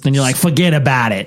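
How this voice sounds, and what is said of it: Put-on New York accent. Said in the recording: “Is that Boston? ... Isn't that how you guys talk out there? ... No, that's more New York, I think.”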